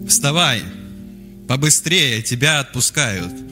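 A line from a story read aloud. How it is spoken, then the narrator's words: Deafeningly loud. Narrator (Russian): Так громко сказали, до звона в ушах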